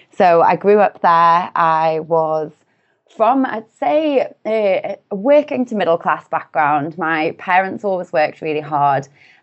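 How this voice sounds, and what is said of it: Northern English Newcastle accent. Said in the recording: “as you can probably tell from my accent, I am from the UK and I'm from a relatively small city in the north of the UK called Newcastle upon Tyne”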